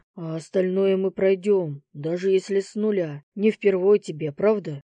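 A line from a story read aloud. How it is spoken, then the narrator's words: Wry grunt. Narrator (Russian): Я хмыкнул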